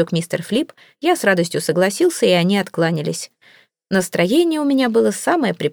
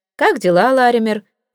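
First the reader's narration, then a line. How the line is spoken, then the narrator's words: Cheerful question. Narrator (Russian): весело спросил я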